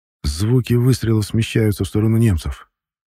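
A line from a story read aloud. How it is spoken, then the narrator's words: Plain. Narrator (Russian): ответил наконец Лебедев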